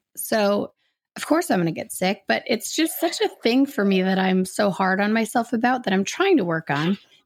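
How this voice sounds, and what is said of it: Sick-sounding voice. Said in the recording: “Why am I getting sick? ... I'm still getting sick ... that's why my voice sounds like this”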